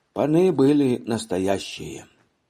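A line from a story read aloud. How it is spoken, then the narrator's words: Sighing. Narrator (Russian): сказал он, как-то особенно вздохнув, прибавил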